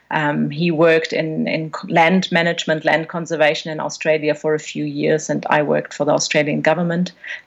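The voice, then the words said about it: Non-Australian accent. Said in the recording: “As you might be able to tell from my accent, I'm not Australian.”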